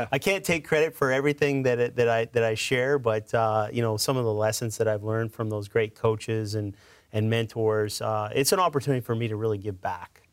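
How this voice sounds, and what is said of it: Canadian accent. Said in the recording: “I noticed by your accent that, to quote some of my friends, you ain't from around here. you grew up in Canada.”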